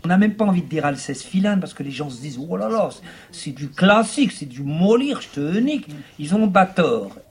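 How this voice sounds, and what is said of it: Imitated working-class French accent, closed vowels. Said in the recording (French): “Une imitation d'un acteur, Fabrice Luchini ... Il imite l'accent populaire ... Il ferme ses voyelles ... Il ferme les voyelles.”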